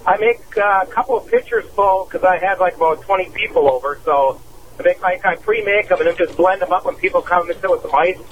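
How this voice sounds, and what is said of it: Wisconsin Sheboygan accent. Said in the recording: “I heard your Sheboygan accent in there.”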